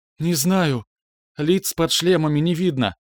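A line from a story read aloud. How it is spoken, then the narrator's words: Breathed out. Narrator (Russian): выдохнула Лена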